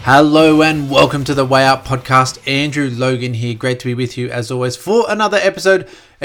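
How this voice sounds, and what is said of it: Croaky, slightly hoarse voice. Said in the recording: “if my voice is a bit croaky”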